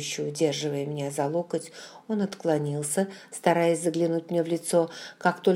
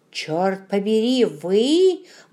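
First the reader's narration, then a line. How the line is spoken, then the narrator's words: Exclamation. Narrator (Russian): воскликнул он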